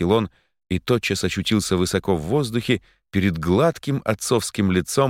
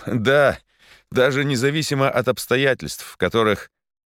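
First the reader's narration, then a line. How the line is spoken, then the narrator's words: Laughing. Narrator (Russian): Он рассмеялся и сказал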